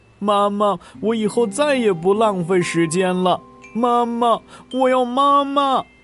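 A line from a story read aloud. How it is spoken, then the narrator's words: Crying, calling out. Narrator (Chinese): 他一边哭一边喊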